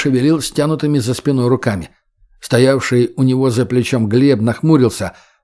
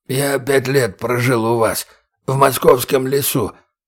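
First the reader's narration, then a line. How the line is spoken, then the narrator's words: Hoarse wheeze, prisoner. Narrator (Russian): прохрипел пленник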